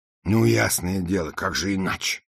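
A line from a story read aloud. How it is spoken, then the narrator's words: Movers grumbling. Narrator (Russian): проворчали грузчики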